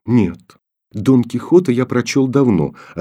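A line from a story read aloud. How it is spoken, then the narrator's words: Calm answer. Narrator (Russian): ответил Коля спокойно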